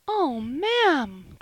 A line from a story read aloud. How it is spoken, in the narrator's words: cried Polly, and she burst into a flood of tears